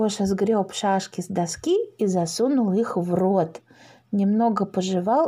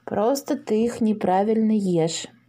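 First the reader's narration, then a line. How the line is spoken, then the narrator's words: Gloomy remark. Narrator (Russian): мрачно заметил Паша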